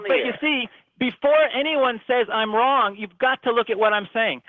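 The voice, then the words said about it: Yelling, too loud. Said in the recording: “you got to stop yelling ... Am I too loud? ... if you're yelling”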